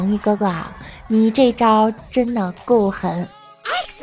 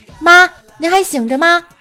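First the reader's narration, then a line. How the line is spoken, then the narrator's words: Calling upstairs. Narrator (Chinese): 对着楼上喊了一句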